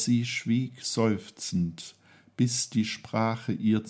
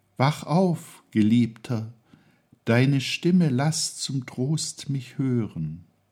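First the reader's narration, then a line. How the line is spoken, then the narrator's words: Sighing. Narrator (German): seufzt im dritten Kuss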